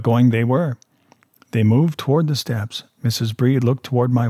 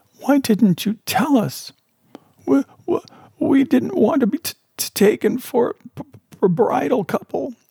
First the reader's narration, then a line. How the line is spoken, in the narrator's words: sobbed Mrs